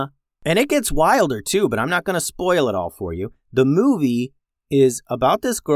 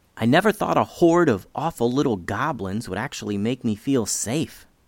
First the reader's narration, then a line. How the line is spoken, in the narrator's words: whispered Mia